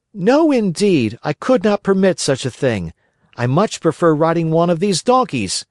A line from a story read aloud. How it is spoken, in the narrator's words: cried Pinocchio